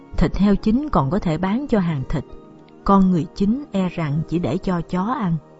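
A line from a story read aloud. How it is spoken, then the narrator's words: Sighing. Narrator (Vietnamese): Tôn Tú Thanh thở dài nói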